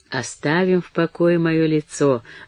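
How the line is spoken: Gentle. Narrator (Russian): ласково промолвила Мэри

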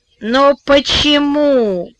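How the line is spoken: Moaning. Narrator (Russian): простонала Вера

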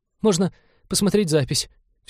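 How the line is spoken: Trembling voice. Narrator (Russian): все еще дрожащим голосом предложил навигатор

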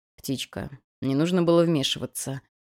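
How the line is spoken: Gentle chiding. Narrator (Russian): мягко пожурил Абадон

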